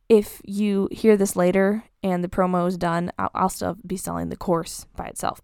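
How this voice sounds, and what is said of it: Tired voice going low. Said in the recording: “my throat and my voice is just like going low again”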